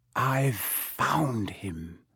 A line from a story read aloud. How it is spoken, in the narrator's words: whispered